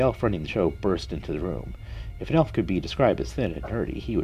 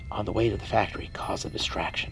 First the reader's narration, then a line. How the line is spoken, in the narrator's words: Elijah whispered back